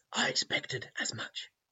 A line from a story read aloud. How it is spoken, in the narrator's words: he rasped